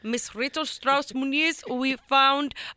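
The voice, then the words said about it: Put-on South Asian accent. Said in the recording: “outsource to like India or Pakistan ... I'm not going to do the accent for this whole phone call”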